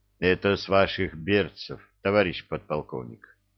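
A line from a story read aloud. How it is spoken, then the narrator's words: Calm. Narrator (Russian): спокойно ответил Мудрецкий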